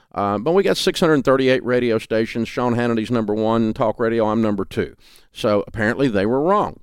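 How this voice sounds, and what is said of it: Southern US drawl. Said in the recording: “I have a Southern accent. I'm in Nashville, Tennessee. ... that hillbilly drawl”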